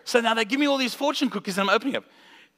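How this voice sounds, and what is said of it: South African accent. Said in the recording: “we're from South Africa, if you didn't catch the accent.”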